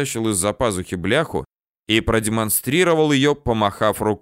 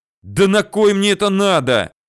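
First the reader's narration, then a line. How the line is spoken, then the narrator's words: Angry shout. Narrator (Russian): Зло выкрикнул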